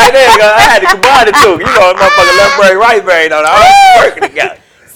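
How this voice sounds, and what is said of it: Usual voice. Nothing is said of it.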